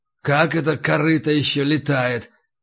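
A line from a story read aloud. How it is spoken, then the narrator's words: Muttering. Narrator (Russian): пробормотал Горкуша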